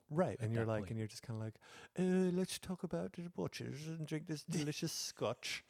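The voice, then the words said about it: Put-on Mrs. Doubtfire English accent. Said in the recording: “You're on that English accent again ... What part of England was that? ... No place I've ever been, that's for sure ... Was that the Mrs. Doubtfire accent?”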